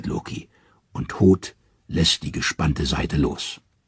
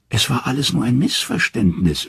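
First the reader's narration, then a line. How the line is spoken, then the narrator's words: Whimpering. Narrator (German): wimmert Loki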